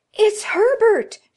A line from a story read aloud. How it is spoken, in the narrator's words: screamed